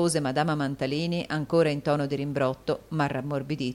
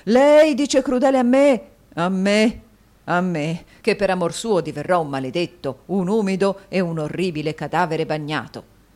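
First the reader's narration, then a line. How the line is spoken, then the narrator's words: Exclaiming. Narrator (Italian): esclamò il signor Mantalini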